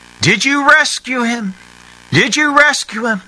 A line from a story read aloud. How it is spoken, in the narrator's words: they called out